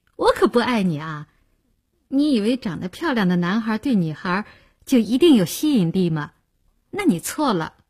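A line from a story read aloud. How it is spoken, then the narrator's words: Laughing. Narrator (Chinese): 林星听了笑道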